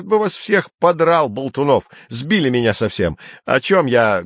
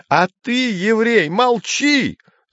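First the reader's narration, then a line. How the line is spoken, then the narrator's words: Yelled. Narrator (Russian): заорал Гейгер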